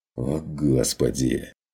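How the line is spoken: Irritated sigh. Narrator (Russian): вздохнул Стрик раздраженно

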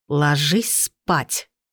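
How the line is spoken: Growling. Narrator (Russian): прорычал Арден

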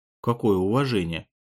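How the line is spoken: Sarcastic remark. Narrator (Russian): язвительно заметил Амир

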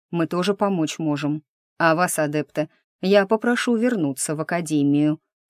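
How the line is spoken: Stern. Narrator (Russian): сказал строго

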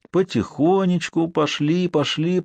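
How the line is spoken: Cooing. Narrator (Russian): проворковала Флейн

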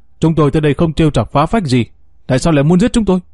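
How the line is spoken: Enraged shout. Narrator (Vietnamese): anh Hải nổi điên quát

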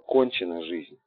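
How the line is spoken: Quiet. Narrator (Russian): он тихо сказал

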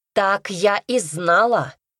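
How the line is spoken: Girl speaking through teeth. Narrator (Russian): процедила девушка

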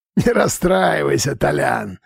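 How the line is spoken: Laughing. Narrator (Russian): рассмеялся шаман

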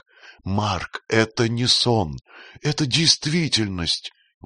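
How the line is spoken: Whispered exclamation, young woman. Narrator (Russian): воскликнула шепотом девушка

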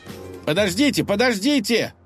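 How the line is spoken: Shout. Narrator (Russian): закричал Юлий

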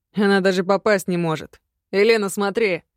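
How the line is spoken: Laughing. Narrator (Russian): смеялся их принц

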